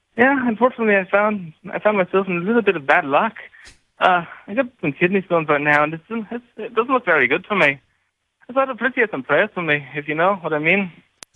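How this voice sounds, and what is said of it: Put-on Scottish-sounding accent. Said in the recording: “accent ... It's kind of Scottish.”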